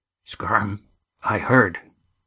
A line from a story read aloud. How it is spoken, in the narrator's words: said Cam softly